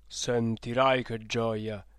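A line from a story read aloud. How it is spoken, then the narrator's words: Plain. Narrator (Italian): disse il babbo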